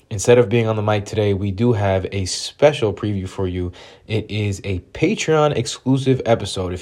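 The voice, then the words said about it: Sick-sounding voice. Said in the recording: “as you might be able to tell by my voice, everyone on the pod is a little bit sick.”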